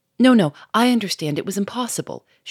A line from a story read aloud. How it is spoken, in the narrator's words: she cried quickly, cutting him short